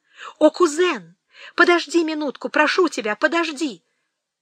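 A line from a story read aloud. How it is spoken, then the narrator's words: Exclaiming. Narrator (Russian): она воскликнула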